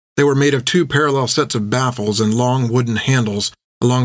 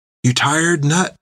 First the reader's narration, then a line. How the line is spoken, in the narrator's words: she asked, barely whispering